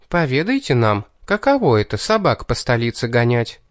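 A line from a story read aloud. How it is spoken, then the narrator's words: Spiteful demanding voice. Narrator (Russian): Злым-призлым голоском потребовала Кейтлин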